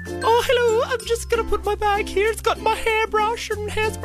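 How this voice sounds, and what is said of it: Put-on girly feminine voice. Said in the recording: “put on a little girly accent”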